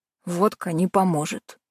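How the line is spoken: Grunted. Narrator (Russian): буркнул он

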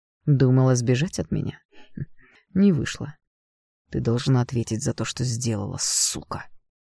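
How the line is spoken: Hoarse voice. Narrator (Russian): хрипло произнес он

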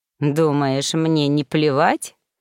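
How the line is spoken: Insolent snort. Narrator (Russian): нагло хмыкнул Ремгар

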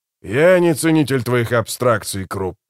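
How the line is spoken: Growled. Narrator (Russian): прорычал Скворец

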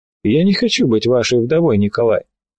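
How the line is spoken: Unexpectedly dry. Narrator (Russian): Голос ее прозвучал неожиданно сухо

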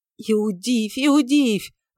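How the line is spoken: Desperate exclamation. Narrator (Russian): воскликнул отчаянно Варавва

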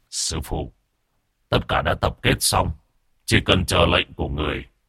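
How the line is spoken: Muttering. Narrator (Vietnamese): Từ Phúc lẩm bẩm

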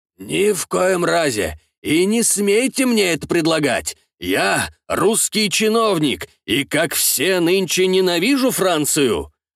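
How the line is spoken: Deliberately loud. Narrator (Russian): Нарочито громко отвечал Казимир Шварц

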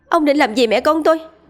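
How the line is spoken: Loud shout. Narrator (Vietnamese): Tơ Lộ hét lớn

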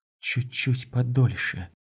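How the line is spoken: Whisper. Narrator (Russian): прошептала она

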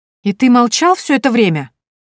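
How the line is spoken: Indignant exclamation. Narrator (Russian): возмущенно воскликнула я

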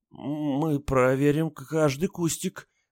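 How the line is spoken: Trembling mumble, woman. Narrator (Russian): дрожащим голосом промямлила женщина

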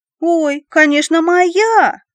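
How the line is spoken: Joyful yell. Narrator (Russian): радостно завопил Коржиков

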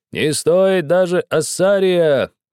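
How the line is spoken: Merchants shouting. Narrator (Russian): кричали торговцы

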